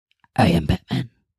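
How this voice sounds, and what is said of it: Batman character voice impression. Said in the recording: “That was a fantastic impression.”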